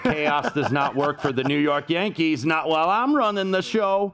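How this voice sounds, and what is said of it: Larry David's George Steinbrenner impression. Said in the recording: “The Larry David impersonated George Steinbrenner, obviously, from Seinfeld.”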